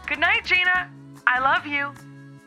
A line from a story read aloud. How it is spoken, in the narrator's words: she called out from the living room